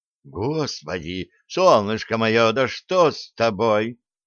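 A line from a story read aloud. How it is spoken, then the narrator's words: Alarmed exclamation. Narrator (Russian): Встревоженно воскликнул вор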